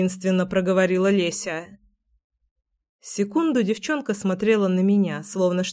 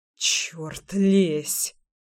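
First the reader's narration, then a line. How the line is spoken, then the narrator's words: Muttered. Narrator (Russian): пробормотал я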